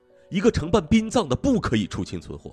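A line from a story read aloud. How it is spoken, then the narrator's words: Roaring. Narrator (Chinese): 警长吼道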